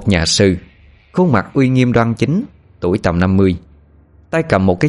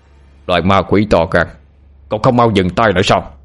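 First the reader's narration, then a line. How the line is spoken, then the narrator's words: Loud shout. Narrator (Vietnamese): một tiếng hét lớn vang lên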